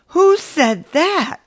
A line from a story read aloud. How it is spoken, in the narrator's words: I cried